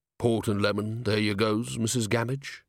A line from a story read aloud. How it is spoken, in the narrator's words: rumbled